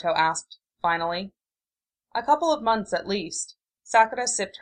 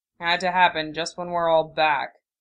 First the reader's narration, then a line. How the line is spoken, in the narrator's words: Sasuke grumbled under his breath